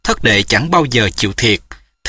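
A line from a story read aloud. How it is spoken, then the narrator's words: Smiling. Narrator (Vietnamese): Trương Thúy Sơn mỉm cười nói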